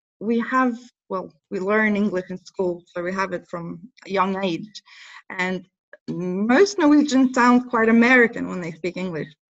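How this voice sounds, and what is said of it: Mixed Norwegian-British English accent. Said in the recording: “It's cool because it's like your own special accent. It's a really cool mix of all of them.”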